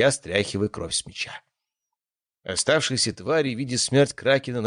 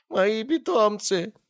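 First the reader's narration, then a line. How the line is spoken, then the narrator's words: Moaning. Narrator (Russian): стонал Гелиос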